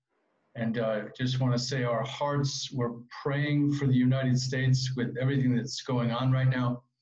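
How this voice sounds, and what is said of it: American English accent. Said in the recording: “As you can hear from my accent or lack of, I'm also an American Jew who was born and raised in West Hartford, Connecticut”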